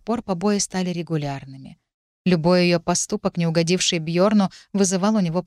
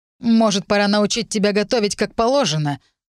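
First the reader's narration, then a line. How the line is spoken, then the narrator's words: Spiteful grinning. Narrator (Russian): зло осклабился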